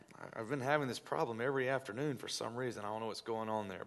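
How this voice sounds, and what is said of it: Low, fading voice. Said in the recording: “my voice is going out. I don't know if you can tell how low my voice is tonight”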